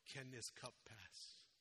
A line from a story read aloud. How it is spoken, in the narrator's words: He cries out in his sorrow